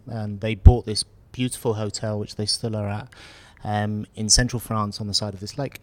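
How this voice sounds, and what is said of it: British English accent. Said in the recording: “as you can probably tell from my accent, I'm originally from the UK”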